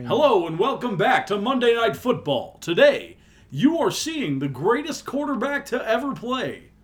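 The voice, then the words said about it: Goofy sports announcer voice. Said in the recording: “Goofy sports person announcer voice ... I sound like a professional sports announcer”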